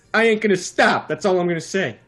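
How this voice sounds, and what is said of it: Put-on Brooklyn accent. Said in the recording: “I'm pulling out the Brooklyn accent, then.”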